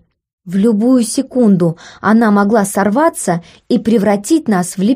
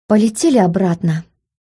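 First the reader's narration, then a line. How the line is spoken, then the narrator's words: Tired voice. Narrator (Russian): уставшим голосом обратилась к Смарагду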